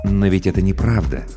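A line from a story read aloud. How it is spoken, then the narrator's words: Soft. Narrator (Russian): мягко произнес Сарториус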